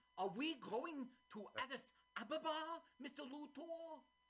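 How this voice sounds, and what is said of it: Imitates another person's voice. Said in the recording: “Here's my impression.”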